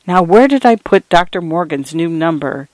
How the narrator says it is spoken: muttering to herself

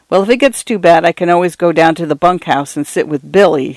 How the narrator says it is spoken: he said irritably

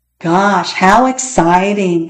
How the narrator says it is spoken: said Peter in a very unexcited voice

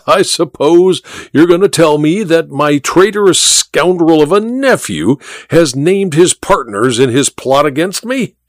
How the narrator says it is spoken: said the Duke with a harsh laugh

